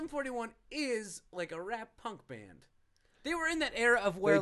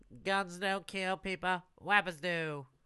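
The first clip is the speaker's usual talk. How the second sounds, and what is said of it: Imitates another person's voice. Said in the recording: “That's my impression... It's really accurate”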